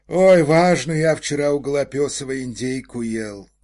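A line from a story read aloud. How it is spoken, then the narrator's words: Sigh. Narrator (Russian): вздохнул помощник исправника Пружина-Пружинский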